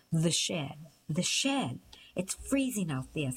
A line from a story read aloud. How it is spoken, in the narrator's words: said Amir